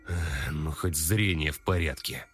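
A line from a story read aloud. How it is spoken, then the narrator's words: Calmer exhaled words. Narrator (Russian): Уже спокойнее выдохнул Владимир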